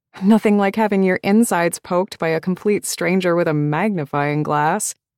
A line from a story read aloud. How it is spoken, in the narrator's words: she sighed with what I suspected was genuine longing